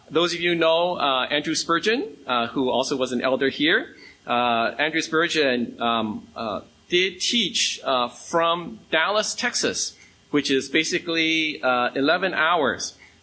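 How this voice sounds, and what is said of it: American accent. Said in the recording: “you sound my, from my accent, I am from the U.S.”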